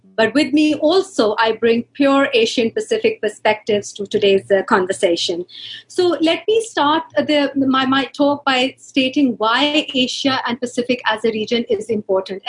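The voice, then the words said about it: Pakistani English accent. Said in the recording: “my very bad Pakistani English accent”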